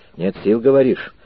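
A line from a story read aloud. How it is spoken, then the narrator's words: Gloomy question, captain. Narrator (Russian): мрачно спросил капитан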